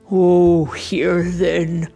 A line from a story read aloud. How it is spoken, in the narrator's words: Santa sighed